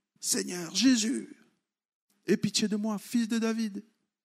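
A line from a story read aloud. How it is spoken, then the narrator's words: Crying out. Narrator (French): Ils criaient comme ça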